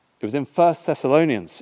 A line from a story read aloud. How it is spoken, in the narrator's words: I said